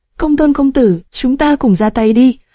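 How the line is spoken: Smiling old master. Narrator (Vietnamese): Đoan Mộc lão tổ mỉm cười

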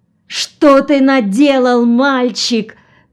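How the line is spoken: Shouting. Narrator (Russian): кричал он

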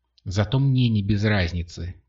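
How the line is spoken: Grumbling reply. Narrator (Russian): проворчала в ответ девушка

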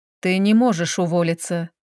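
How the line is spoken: Tongue click, sigh. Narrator (Russian): прицыкнув языком, вздохнул Федор

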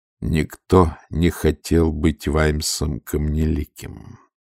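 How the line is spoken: Cold repetition. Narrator (Russian): холодно повторил Ваймс

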